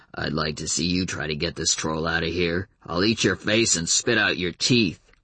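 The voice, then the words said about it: Very deep muttering character voice. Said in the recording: “someone with a very deep voice muttering”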